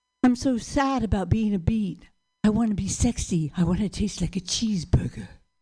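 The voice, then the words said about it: Sultry vegetable character voice. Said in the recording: “my sexy beat impression”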